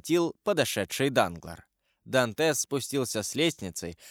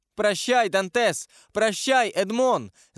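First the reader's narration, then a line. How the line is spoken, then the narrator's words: Shouted. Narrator (Russian): закричала Мерседес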